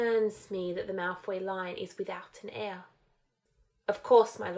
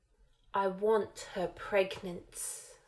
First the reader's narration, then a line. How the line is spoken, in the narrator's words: Voldemort said with a forceful hiss